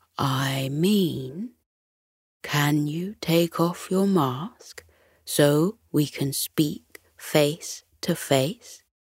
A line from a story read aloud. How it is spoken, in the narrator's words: Mo slowly shook his head and reiterated